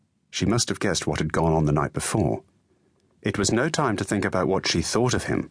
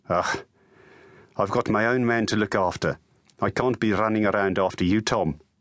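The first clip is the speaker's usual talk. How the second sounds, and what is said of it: Put-on Afrikaans accent. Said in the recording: “Her Afrikaans accent ... grated on his ears”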